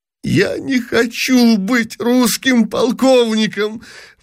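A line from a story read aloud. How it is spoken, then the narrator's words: Sobbing exclamation. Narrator (Russian): восклицал, рыдая, принц Евгений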